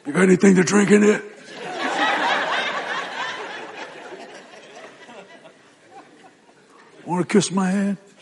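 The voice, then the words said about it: Raspy Godfather-style gangster voice. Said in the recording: “your throat kind of gets raspy.”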